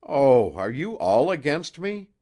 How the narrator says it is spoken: she cried

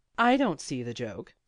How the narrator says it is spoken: said Blasi crossly

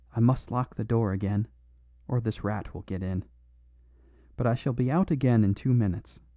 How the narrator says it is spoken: The doctor's face had a spasm of disgust and decision, and he whispered rapidly

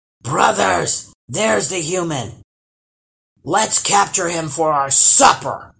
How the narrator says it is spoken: hollered the first troll

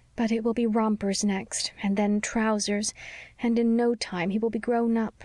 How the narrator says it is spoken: sighed

